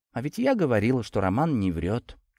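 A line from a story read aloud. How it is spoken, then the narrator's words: Quiet whisper. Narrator (Russian): тихо прошептала в этот момент Анастасия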